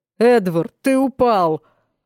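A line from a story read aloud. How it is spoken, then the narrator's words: Deep bass voice. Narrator (Russian): пробасил он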